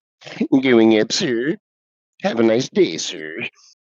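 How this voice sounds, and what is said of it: Imitates cartoon dog Droopy's voice. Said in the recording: “Droopy right. Dog.”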